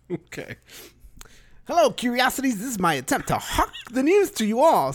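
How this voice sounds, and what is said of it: Old-time newsboy character voice. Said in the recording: “your best newsie impression”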